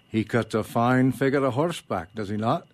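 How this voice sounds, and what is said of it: Attempted Scottish accent. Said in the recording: “I'm going to attempt to do a Scottish accent where I need to, so forgive me if I don't pull it off”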